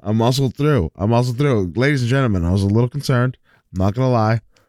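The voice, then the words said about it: Sick voice, coughing and sniffling. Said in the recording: “I'm feeling a little under the weather. You may or may not be able to hear it in my voice. So you're going to hear me coughing sometimes and maybe a little sniffle here or there.”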